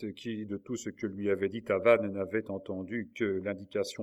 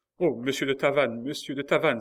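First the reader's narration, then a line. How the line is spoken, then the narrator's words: Exclaimed. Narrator (French): s'écria Marguerite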